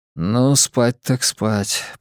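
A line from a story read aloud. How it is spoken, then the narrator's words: Muttering. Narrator (Russian): пробормотал я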